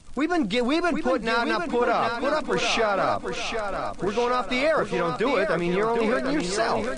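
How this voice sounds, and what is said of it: Yelling angrily. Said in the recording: “I'm sorry for yelling.”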